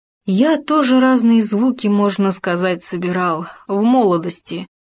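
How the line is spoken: Sigh. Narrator (Russian): вздохнул он

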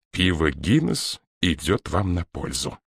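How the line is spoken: Hissed jibe from behind. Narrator (Russian): какой-то остряк, бригадный генерал, прошипел у него за спиной

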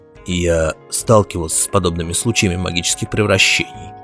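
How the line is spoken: Gloomy. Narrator (Russian): мрачно сказал Сверхнеблин

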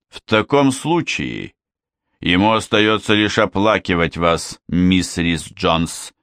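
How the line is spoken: Stern, hint of regret. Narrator (Russian): строго произнес Миллс, но кто-то мог бы заметить в его голосе нотки сожаления

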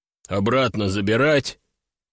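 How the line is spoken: Sudden deep bass voice. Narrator (Russian): неожиданно пробасил водитель

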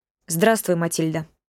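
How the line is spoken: Cold greeting. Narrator (Russian): холодно поздоровался

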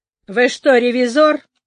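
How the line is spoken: Lazy inquiry. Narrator (Russian): лениво осведомилась она

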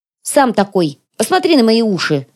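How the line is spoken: Snapping retort. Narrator (Russian): огрызнулась блондинка на Серого

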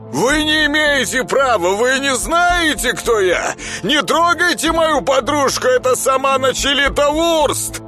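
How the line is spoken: Man shouting. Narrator (Russian): кричал мужчина

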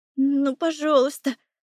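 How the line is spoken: Cold mumbling. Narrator (Russian): бормочу, чувствуя, как коченеют пальцы

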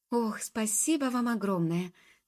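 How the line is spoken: Grateful exclamation. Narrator (Russian): воскликнула девушка

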